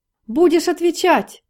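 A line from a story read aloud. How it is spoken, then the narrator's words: High womanish shriek. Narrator (Russian): неожиданно высоким женским голосом взвизгнул Проскуряков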